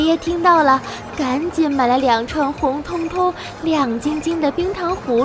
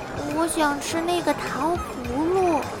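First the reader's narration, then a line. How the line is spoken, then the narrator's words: Shy mumble. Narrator (Chinese): 圆圆羞答答的嘟囔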